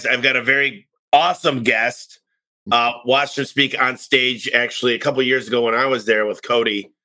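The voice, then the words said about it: Slightly congested, stuffy voice. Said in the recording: “I've got a little cold today, so apologize.”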